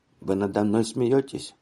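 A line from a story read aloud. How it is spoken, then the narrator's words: Quiet. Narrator (Russian): Людвиг тихо сказал мне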